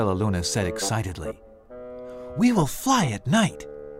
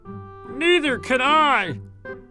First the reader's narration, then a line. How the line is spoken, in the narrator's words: howled Flitter